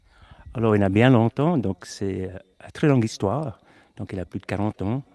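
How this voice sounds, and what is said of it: English accent speaking French. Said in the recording (French): “vous avez toujours gardé votre magnifique accent anglais”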